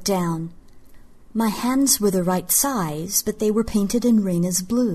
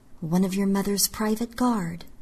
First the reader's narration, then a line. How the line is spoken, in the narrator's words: I murmured